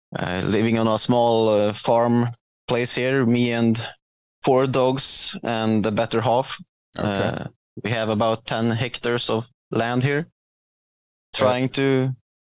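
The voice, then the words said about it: Swedish-accented English. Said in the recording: “as the listeners can tell by your accent, you're not here in the United States ... I live in the middle of Sweden”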